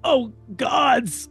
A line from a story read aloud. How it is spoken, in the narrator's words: gasps, staring in wide-eyed horror